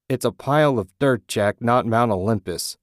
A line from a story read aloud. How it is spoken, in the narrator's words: Ted shouted